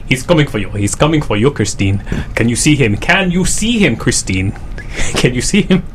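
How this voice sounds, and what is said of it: Put-on Swahili accent, menacing line. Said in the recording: “You're working on an African dialect ... learn the dialect for speak Swahili in accent and Swahili ... In a Swahili accent, would you do your line from End of Days? ... It's very hard to do. I can't get as evil ... Not so bad.”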